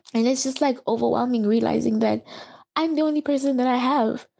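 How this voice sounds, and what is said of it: Emotional, choked-up voice. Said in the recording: “I'm even getting emotional”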